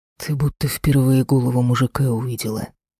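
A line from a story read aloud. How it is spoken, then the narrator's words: Displeased growl. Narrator (Russian): рыкнул недовольно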